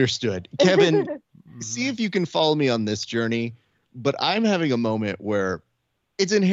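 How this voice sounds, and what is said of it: Usual voice. Nothing is said of it.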